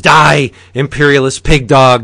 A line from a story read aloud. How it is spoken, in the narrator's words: screams